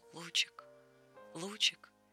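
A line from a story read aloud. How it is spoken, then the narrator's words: Grandfather whispering. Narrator (Russian): Дедушка шептал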